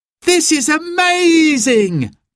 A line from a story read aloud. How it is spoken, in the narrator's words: cried Simon